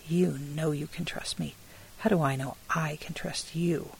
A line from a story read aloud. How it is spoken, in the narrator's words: She said harshly